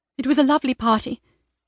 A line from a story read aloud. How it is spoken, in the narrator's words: she started feebly